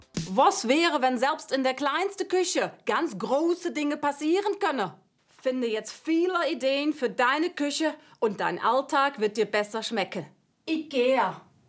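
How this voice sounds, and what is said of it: German with Dutch accent. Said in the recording (German): “mit niederländischem Akzent ... Holländisch ... Eher holländisch irgendwie”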